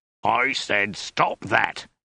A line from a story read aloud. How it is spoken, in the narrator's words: bellowed